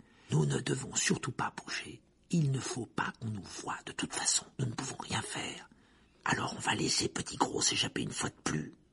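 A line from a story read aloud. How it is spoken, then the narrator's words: Low voice. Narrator (French): dit Harry à voix basse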